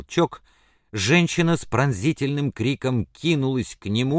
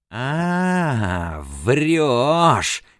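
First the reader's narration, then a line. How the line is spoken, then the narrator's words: Hoarse, furious wheeze. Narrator (Russian): хрипел он, тиская свою жертву с бешеным озлоблением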